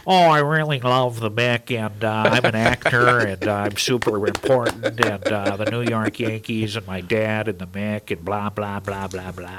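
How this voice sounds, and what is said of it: Imitates another person's voice. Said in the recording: “I was looking for Billy Crystal. That was spot on impersonation.”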